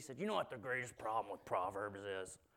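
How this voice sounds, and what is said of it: Imitates another person's voice. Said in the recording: “That's my Randy Harris impression.”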